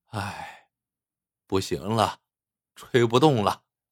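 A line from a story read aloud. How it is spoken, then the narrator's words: Sighing. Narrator (Chinese): 冯舌头叹了口气，说道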